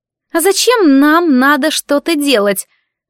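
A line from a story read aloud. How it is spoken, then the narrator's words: Irritated question. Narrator (Russian): раздраженно спросила одна из девушек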